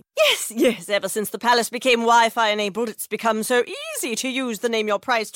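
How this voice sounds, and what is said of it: Posh royal family impression. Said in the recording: “my impression of a tech savvy royal family”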